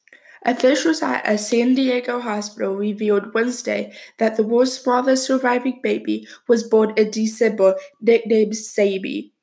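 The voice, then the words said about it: Slightly sick-sounding voice. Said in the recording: “As you can tell by my voice, I sound a little sick”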